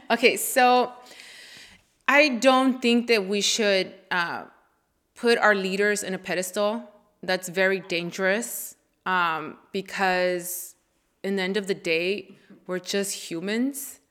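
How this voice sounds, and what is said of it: Noticeable accent. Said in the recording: “my accent is gonna be uh, shown extremely right now.”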